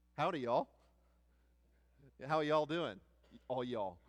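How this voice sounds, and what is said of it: Put-on Texas twang. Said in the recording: “little twang that we pick up ... There's a little bit of y'all in there”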